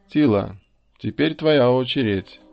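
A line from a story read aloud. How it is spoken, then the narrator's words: Cheerful. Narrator (Russian): весело сказала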